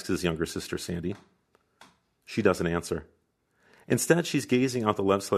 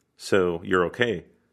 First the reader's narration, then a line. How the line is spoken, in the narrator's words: our host asks